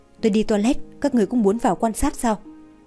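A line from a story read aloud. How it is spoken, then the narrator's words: Fearful, respectful. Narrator (Vietnamese): Người giúp việc dáng vẻ sợ hãi, cung kính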